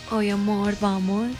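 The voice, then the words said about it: Put-on Paisa Colombian accent. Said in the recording (Spanish): “usted me responde en acento paisajo”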